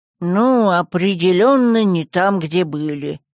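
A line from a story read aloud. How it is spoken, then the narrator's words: Grumbling. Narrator (Russian): проворчал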